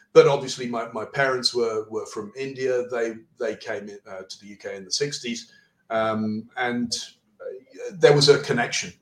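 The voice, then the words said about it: Strong Southern English accent. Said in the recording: “this strong Southern accent”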